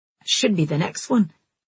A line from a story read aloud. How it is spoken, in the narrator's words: he muttered